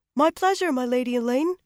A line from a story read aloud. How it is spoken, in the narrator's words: he piped, blushing